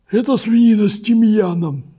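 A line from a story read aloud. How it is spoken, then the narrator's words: Hoarse. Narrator (Russian): добавил Токи сиплым голосом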